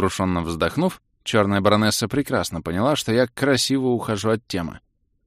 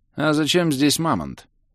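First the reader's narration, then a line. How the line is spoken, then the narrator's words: Lazy inquiry. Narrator (Russian): лениво поинтересовался я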